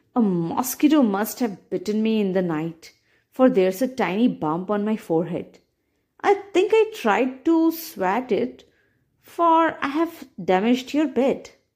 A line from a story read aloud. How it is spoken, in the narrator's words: the tailor exclaimed